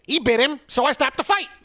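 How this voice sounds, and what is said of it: Imitates another person's voice. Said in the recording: “I used to have a good Mills Lane impression... I used to like my Mills Lane.”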